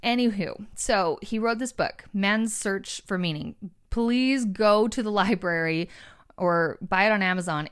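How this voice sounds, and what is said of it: Breathless, out of breath speech. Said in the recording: “I don't know why I'm so out of breath. I'm just sitting in a chair.”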